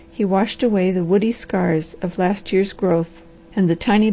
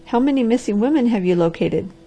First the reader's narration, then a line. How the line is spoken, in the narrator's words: The doctor laughed